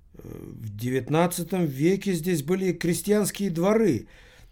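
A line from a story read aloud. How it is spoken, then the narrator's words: Confused elderly woman. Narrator (Russian): пожилая леди отвечала растерянным голосом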